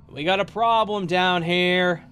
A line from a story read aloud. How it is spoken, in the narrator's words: my dad yelling up from beneath the floors